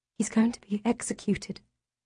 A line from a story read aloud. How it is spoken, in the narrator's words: I whisper